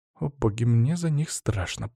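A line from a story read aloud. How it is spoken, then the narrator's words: Worried female mumble. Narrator (Russian): пробормотала Лена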